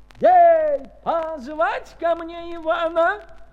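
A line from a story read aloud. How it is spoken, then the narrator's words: Tsar's hurried shout. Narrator (Russian): Царь поспешно закричал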